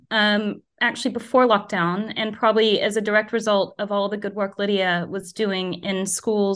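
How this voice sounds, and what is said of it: American accent. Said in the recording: “As you can probably hear from my accent, I shouldn't know anything about cricket. And growing up in the US”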